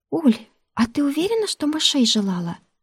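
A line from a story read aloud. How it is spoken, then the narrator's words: Timid question. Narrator (Russian): Робко поинтересовалась Ляля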